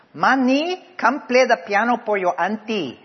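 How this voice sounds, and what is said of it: Yelled Filipino accent imitation. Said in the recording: “my mom would yell out in her Filipino accent”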